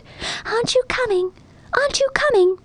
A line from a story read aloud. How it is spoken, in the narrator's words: some pretty blue-eyed flowers growing among the grass leaned over and whispered